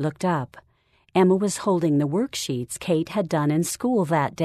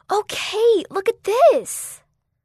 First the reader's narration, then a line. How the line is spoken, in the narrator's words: Emma gasped